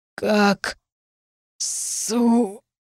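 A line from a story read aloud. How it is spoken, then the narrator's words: Hoarse wheeze. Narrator (Russian): прохрипел он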